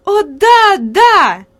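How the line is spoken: Lively, delighted exclamation. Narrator (Russian): живо воскликнула Хади, от восторга

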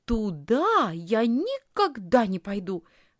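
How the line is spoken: Exclaiming. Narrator (Russian): воскликнула Лисхин

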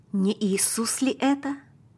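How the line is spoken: Father whispering. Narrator (Russian): прошептал папа

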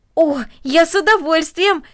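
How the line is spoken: Exclaimed. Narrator (Russian): воскликнул Дино

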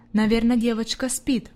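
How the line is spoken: Muttering to herself. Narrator (Russian): пробормотала фрай Сесман про себя

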